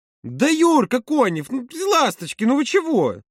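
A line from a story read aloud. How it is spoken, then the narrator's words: Louder exclamation. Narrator (Russian): воскликнула Маша еще громче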